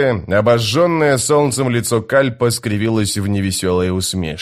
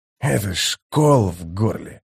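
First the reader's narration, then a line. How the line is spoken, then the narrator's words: Gruff mutter. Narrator (Russian): буркнул он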